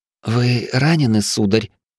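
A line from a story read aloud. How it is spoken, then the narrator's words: Slightly trembling question. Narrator (Russian): чуть дрожащим голосом спросила дочь Тирра Харька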